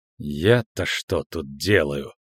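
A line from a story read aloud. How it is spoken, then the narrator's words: Irritated mutter. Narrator (Russian): раздраженно пробормотала чародейка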